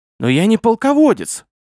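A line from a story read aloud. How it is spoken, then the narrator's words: Exclaimed. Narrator (Russian): воскликнул Гурий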